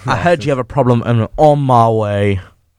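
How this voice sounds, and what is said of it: Put-on accent. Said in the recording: “I don't know where you're hearing these accents from.”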